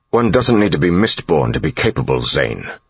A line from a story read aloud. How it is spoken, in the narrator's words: he snapped